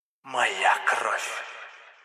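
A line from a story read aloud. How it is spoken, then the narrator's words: Hissing inner voice. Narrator (Russian): шипение в темной глубине разума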